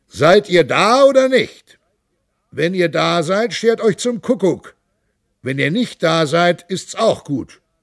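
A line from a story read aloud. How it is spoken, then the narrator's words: Raised voice calling out. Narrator (German): erhob unser Prinz die Stimme und rief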